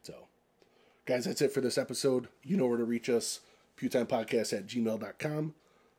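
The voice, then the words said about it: Strained, fading voice. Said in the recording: “my voice is literally fleeting from my body... You're struggling to push this out at the end.”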